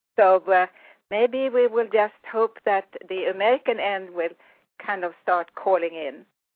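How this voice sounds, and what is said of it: Swedish accent. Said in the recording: “as you can hear, not quite so American. I speak with an accent, and the accent is Swedish.”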